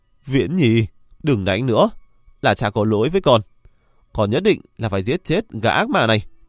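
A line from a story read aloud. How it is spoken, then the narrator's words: Loud call. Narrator (Vietnamese): Hắn cao giọng hô lên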